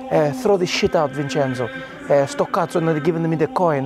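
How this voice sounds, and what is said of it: Mock Pope voice, bad Italian. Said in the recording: “it seems like I speak bad Italian ... doing a very good Pope impression ... his Italian's not great”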